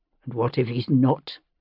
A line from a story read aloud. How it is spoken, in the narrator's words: He said dryly